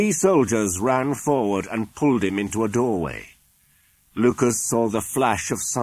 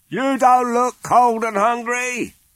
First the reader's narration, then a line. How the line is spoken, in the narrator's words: shouted a man